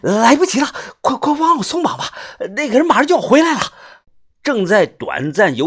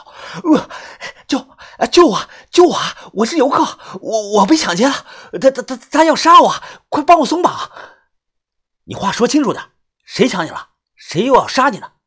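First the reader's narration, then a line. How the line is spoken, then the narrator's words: Panicked, breathless man. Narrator (Chinese): 这个中年男人啊，眼神惊慌失措，他急促的喘着气说道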